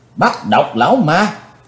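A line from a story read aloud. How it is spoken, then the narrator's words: Crowd shouting in unison. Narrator (Vietnamese): cả tràng đều đồng thanh quát lớn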